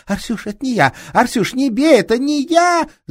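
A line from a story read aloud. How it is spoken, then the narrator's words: Shrieking. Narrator (Russian): Завизжала Маруха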